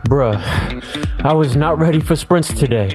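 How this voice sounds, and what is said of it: Out of breath, panting speech. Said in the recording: “so out of breath?”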